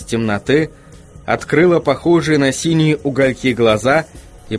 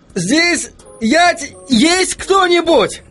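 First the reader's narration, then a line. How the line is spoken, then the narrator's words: Shouted. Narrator (Russian): крикнул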